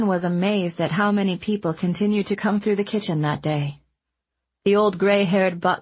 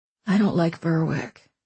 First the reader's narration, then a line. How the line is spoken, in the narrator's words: Owen said softly